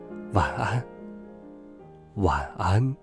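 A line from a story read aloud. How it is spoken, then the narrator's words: Soft and tender. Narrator (Chinese): 轻声说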